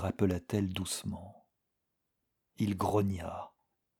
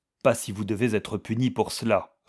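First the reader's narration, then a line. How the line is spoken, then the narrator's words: Curt reply. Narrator (French): répondit-il sèchement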